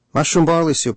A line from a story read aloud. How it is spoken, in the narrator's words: I called out